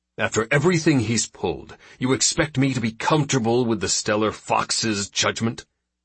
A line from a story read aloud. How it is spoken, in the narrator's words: Randall snapped